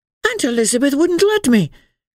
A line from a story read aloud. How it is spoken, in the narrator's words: cried Emily, too frightened of this odd old body to refuse on her own account